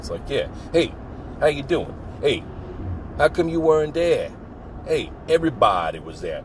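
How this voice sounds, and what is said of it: Put-on Italian-American accent. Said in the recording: “He does this Italian thing, this Italian impersonation ... It sounds a little bit like this.”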